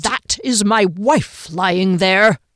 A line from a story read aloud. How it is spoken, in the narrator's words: Kean yelled